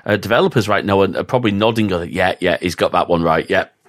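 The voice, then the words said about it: Strong northern English accent. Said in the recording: “my full on northern accent”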